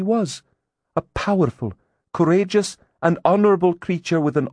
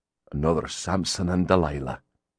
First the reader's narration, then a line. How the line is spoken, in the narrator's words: Grimm muttered